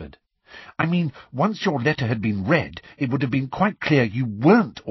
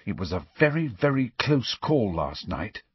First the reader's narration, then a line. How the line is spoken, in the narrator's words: said Hermione